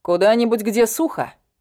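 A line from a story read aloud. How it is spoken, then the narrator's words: Plain. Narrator (Russian): ответил Эшер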